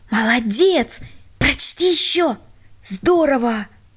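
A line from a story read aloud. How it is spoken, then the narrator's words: Whispers from all sides. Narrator (Russian): со всех сторон шептали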